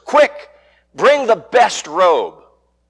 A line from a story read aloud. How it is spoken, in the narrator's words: shouting to his servants